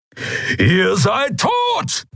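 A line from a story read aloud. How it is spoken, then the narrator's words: Thundering. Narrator (German): donnerte Keru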